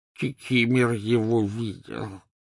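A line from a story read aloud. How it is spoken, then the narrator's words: Hoarse wheeze. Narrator (Russian): просипел эльф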